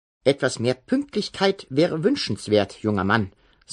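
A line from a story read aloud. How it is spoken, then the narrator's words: Plain. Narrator (German): sagte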